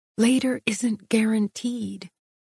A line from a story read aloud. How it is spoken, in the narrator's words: whispered an annoying voice